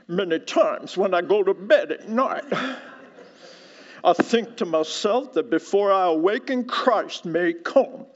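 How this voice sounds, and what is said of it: Put-on North Carolina accent. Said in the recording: “He probably said it like this ... That's probably how he said in that beautiful North Carolina accent.”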